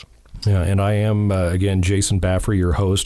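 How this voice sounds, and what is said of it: Great podcast voice. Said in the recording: “You have a great podcast voice”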